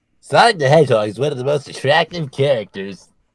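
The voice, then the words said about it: Imitates another person's voice. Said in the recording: “good Jack impression”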